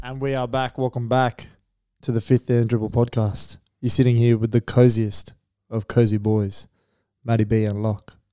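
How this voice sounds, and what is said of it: Slow, low-energy speech. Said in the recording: “I could go to sleep. That's why I'm talking so slow. ... low energy pod today ... slow”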